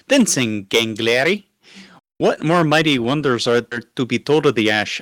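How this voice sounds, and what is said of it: Reads in a put-on accent. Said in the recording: “I don't know where my accent's coming from.”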